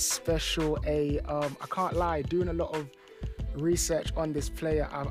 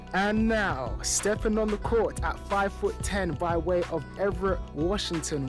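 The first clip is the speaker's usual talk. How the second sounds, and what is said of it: Sports announcer voice. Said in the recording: “Let me clear my throat and get my announcer voice set up.”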